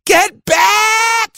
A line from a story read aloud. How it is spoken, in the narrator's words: she screamed